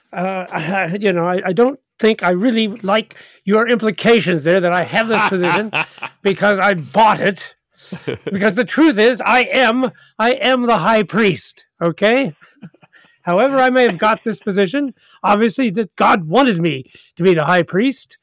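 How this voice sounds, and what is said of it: Put-on character accent. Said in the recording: “What kind of accent is that, Caiaphas, by the way? ... That's a high priest accent.”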